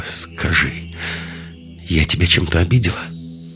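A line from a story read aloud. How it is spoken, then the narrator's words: Slightly trembling question. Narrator (Russian): Лиска чуть дрожащим голосом спросила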